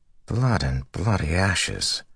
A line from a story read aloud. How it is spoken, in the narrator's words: Matt muttered